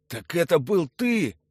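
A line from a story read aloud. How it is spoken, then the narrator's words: Breathed out. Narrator (Russian): выдохнул чиновник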